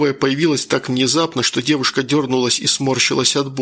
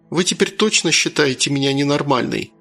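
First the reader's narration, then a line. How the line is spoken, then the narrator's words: Sad question. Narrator (Russian): печально спросила женщина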